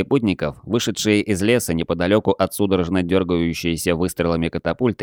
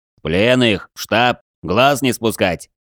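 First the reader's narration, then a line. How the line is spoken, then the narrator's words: Menacing bark. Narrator (Russian): грозно рявкнул на подчиненных командир патрульного отряда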